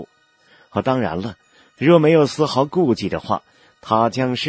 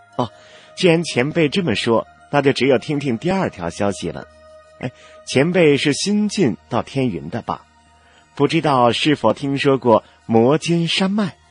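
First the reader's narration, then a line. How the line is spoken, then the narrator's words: Light smile, nonchalant. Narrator (Chinese): 少女微微一笑，毫不在意的样子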